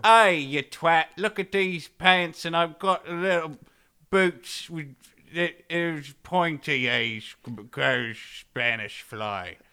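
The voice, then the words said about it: Russell Brand impression, British accent. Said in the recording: “That's a very Russell Brand word... my impression was wearing tight velvet pants”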